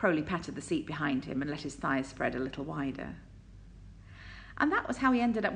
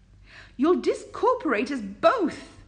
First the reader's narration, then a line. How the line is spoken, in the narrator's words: Aziraphale yelped as Crowley took a turn very quickly